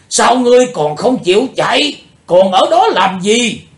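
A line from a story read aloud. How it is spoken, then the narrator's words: Shout. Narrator (Vietnamese): Tiếng hét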